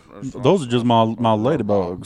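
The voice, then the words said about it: Cartoon rooster Southern drawl voice. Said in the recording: “You have to do in your foghorn leghorn accent.”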